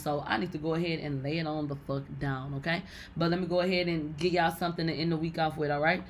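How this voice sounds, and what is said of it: Hoarse, congested, strained voice. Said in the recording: “I got a snotty nose and shit. I've been coughing and sneezing and now you are hearing my voice is gone”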